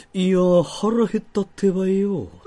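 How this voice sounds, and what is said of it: Imitates another person's voice. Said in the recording (Japanese): “そいつがね、若本さんの真似するときね ... なぜかそいつ若本さんのモノマネするときに、語尾ナルトなんですよ”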